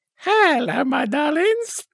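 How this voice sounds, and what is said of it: Imitates another person's voice. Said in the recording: “That was my Charlie Drake impression.”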